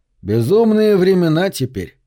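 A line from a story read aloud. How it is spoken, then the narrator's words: Plain. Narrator (Russian): сказал он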